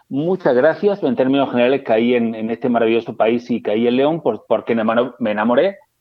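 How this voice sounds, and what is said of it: Spanish accent from Murcia. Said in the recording (Spanish): “ya te escucharon el, el acento, yo sí me acuerdo bien de dónde vienes, eres de Murcia”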